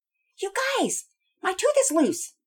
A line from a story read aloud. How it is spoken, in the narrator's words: Penelope shouted out